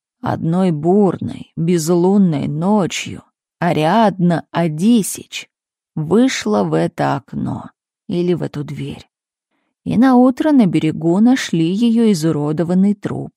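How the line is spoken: Sepulchral voice. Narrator (Russian): продолжил Милорад загробным голосом

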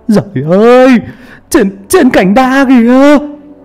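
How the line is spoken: Frightened cry. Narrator (Vietnamese): một người lại kêu lên đầy sợ hãi

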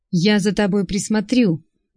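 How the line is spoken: Drunken laughter. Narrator (Russian): он пьяно засмеялся

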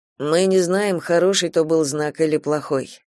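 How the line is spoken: Plain. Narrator (Russian): ответил Кастел

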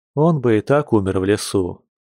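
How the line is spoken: Gloomy interjection. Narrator (Russian): мрачно вставил Яр

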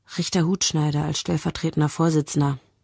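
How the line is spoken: Quiet. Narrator (German): sagt Rosentreter leise zu Mia

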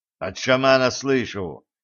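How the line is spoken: Angry reply. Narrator (Russian): зло ответил ведун

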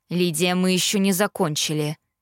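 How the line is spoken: Father's stern tone. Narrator (Russian): строго уведомил меня папа

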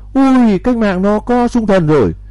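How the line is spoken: Frightened screaming. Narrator (Vietnamese): những tên sợ hãi thét lên

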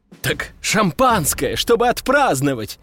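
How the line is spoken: Exclaiming. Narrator (Russian): воскликнул Костя

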